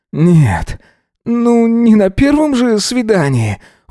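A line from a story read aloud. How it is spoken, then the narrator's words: Delighted exhale, quiet howl. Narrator (Russian): выдохнул Эзра, тихонько взвыв от восторга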